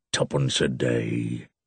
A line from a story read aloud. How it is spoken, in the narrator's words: muttered Moody with a curse